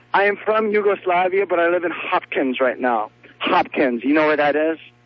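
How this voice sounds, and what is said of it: Inconsistent Yugoslavian accent. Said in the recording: “I don't believe you're from Yugoslavia. You lose your accent periodically. ... What did I say that wasn't so Yugoslavian?”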